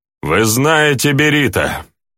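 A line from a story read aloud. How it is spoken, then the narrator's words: Loud. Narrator (Russian): громко произнес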